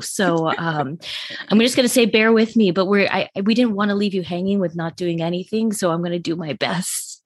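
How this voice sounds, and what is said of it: Sick-sounding voice. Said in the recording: “I got the big C. ... I am COVID infested right now ... if you can tell from my voice, I probably need some more days off too”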